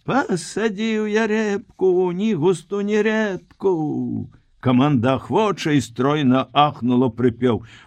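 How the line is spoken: Mock-serious falsetto hollering. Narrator (Belarusian): Вусач малыха на найвышэйшым сур'ёзе загалёкаў бабскім голасам

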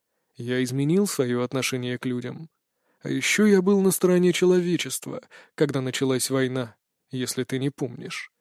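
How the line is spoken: Low-voiced reply, ancient speaker. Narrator (Russian): вполголоса ответил древний

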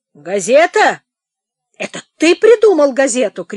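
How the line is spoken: Shouted. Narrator (Russian): крикнул ему Полуянов

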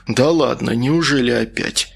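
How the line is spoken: Dejected voice. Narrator (Russian): сказал он упавшим голосом

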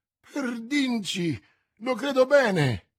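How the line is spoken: Exclamation. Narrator (Italian): esclamò il guascone

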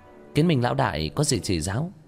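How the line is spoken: Feigned innocent smile. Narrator (Vietnamese): Nguyên Tịch ... giả bộ nghe như không hiểu, mỉm cười

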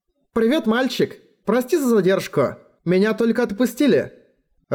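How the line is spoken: Voice from behind. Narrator (Russian): Раздался голос за спиной

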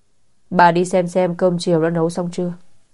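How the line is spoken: Cold. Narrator (Vietnamese): Triệu phu nhân lạnh lùng nói

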